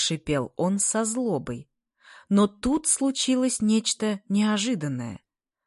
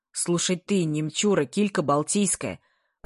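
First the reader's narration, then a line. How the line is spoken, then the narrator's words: Deafening booming bass. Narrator (Russian): прогремел он своим оглушительным басом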